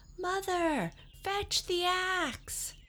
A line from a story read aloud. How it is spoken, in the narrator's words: Jack yelled